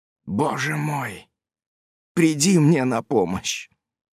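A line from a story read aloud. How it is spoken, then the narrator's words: Whispering. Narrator (Russian): прошептал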